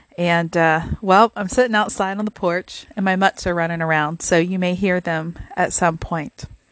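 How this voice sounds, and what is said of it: Slightly gravelly voice. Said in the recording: “my voice is a little gravelly”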